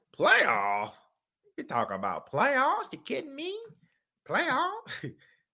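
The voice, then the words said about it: Imitates another person's voice. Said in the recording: “In my Jim Mora voice,”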